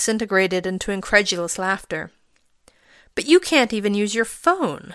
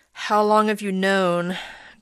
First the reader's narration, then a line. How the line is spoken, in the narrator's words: Greg said with a resigned sigh